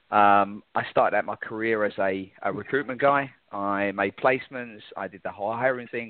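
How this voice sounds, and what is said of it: London English accent. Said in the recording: “As you can hear in my voice, I'm originally from London, England.”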